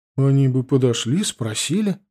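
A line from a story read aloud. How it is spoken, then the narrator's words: Bewildered. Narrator (Russian): сказала растерянно бабушка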